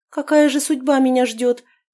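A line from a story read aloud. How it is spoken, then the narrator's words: Sighing princess. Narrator (Russian): вздохнула княжна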